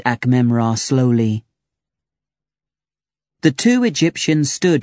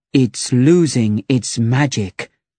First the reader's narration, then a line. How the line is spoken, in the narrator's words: he said slowly